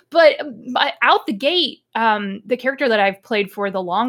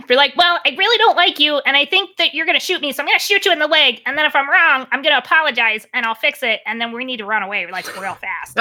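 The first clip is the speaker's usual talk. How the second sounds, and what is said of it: Performed character voice. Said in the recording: “That's a phenomenal character voice”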